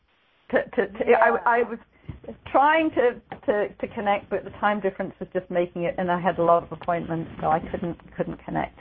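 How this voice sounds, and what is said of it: British accent. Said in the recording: “your lovely, beautiful British accent”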